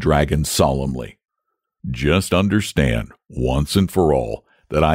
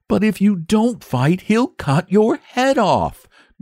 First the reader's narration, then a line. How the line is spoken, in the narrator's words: gasped the boy, miserable at the prospect of losing both his fight and his friend